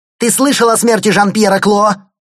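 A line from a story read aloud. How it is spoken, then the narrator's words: Yelling, gangster impression. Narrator (Russian): заорал Лаик, все больше вживаясь в роль Тони Монтана в исполнении Аль Пачино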